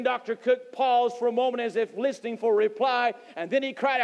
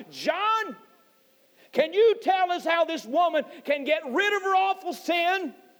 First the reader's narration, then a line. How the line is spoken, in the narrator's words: Cook cried out